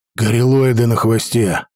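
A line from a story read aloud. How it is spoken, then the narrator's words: Breathless exhale. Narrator (Russian): выдохнул я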